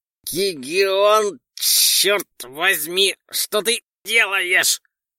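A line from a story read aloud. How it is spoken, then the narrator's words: Hoarse drawl. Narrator (Russian): хрипло протянул тот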